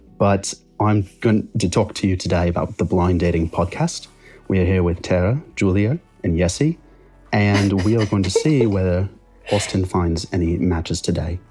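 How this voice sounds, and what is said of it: Put-on British accent drifting Australian. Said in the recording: “talk in a British accent for 10 seconds ... I feel like I float between like Cockney Australian and ... Australian”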